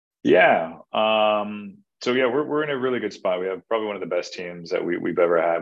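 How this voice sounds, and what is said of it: British accent. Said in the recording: “it's the British accent”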